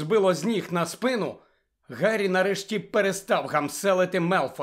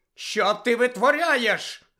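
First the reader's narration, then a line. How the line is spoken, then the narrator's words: Shouted. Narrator (Ukrainian): закричала мадам Гуч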